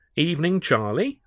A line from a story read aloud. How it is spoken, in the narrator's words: I began brightly